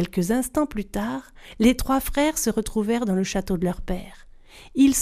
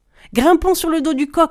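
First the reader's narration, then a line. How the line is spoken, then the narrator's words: Exclaiming. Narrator (French): s'exclama Pétrus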